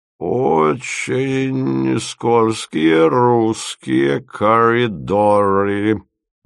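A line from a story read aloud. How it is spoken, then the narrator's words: Grumbling. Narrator (Russian): ворчал он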